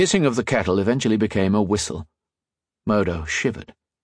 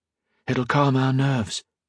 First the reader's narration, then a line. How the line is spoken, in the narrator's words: Modo whispered